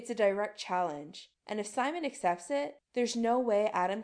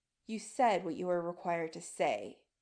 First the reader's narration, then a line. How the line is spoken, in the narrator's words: he murmurs, voice soft but steely